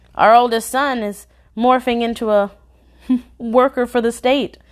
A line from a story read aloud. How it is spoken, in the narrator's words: I panted into the phone